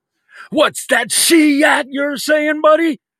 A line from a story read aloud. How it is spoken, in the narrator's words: Scott bellowed in the loudest voice he could muster